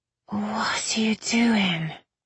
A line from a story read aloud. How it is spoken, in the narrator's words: Irene slurred